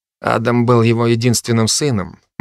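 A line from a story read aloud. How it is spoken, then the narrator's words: Gloomy. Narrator (Russian): мрачно сказал Генри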